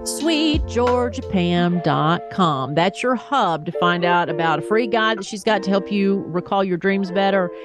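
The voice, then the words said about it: Thick Southern US accent. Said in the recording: “I don't hear my accent, but apparently other people do. Anytime I'm talking with someone who is not from the South, they were like, oh, I love that accent. Or you got a thick accent.”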